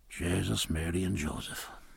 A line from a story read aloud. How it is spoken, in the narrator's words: whispered Stephen